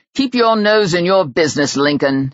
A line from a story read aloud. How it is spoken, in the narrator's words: snapped Ben